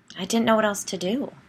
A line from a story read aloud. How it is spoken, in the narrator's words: said, her voice rising